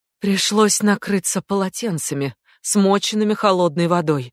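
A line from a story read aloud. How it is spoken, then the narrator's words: Dejected voice. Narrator (Russian): упавшим голосом рассказывала Тина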